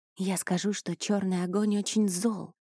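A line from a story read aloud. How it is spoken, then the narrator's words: Confiding female whisper. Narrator (Russian): доверительно прошептала женщина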